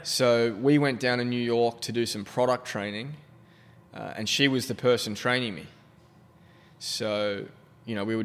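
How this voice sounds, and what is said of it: Australian accent. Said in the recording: “An Aussie accent in America goes a long way. ... compared to the Aussie one”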